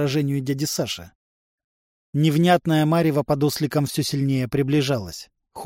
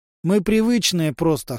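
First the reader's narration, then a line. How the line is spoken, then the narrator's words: Snorting. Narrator (Russian): хмыкнул Влад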